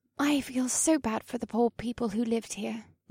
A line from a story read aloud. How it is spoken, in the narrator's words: murmured, and her emerald eyes filled with emotion